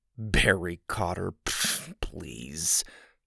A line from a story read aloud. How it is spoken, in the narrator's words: he mumbled to himself